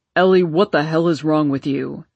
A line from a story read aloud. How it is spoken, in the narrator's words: He didn't seem afraid as he bellowed again